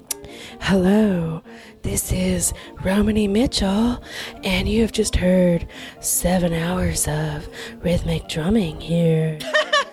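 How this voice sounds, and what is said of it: Calm public radio announcer voice. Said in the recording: “let me NPR that ... That's my NPR voice.”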